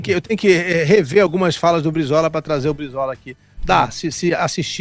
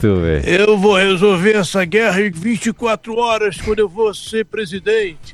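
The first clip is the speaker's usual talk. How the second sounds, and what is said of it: Voice-over dubbing-style voice. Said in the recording (Portuguese): “fazendo voz de dublador”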